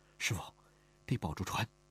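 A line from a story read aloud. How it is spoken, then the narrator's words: Soft quiet voice. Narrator (Chinese): 他轻声说道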